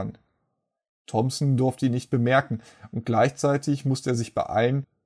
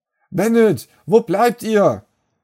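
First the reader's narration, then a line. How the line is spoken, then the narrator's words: Shouting. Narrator (German): schrie Paul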